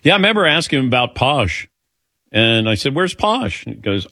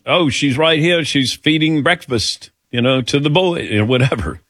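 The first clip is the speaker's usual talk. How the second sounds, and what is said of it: Imitates another person's accent. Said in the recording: “How was that accent?”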